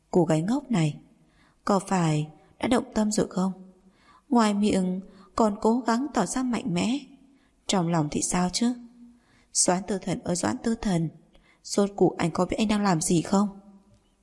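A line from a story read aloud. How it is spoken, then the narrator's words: Silent inner sigh. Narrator (Vietnamese): Mộc Nhược Na trong lòng thầm thở dài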